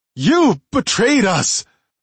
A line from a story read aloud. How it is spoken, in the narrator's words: I shouted, my voice wavering